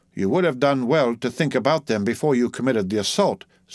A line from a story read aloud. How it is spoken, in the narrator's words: said the judge dryly